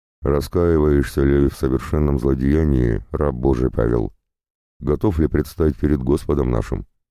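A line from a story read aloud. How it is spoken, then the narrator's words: Indifferent. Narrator (Russian): Священник спросил равнодушным голосом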